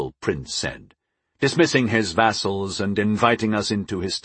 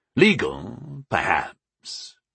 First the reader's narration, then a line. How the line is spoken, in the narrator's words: Tavard said, his voice a growl